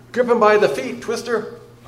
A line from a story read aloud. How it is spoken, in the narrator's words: I cried